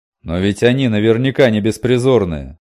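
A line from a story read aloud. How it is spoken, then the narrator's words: Loud displeased male voice. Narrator (Russian): громко произнес рядом недовольный мужской голос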